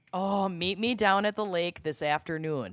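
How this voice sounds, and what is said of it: Mock Minnesota accent. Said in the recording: “my little mock Minnesota accent ... please give us a sample”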